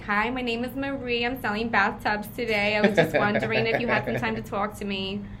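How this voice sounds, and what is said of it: Put-on New Jersey accent. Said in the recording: “all the accents, though, that I did ... if I was calling, like, Jersey”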